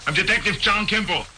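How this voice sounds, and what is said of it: Thick Austrian accent impression. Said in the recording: “With the thick Austrian accent? ... this crazy accent. You can barely understand”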